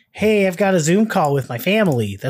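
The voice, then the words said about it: Imitates another person's voice. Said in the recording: “my Michael impression.”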